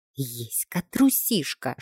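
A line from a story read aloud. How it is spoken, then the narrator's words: Whisper under breath. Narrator (Russian): шепнула себе под нос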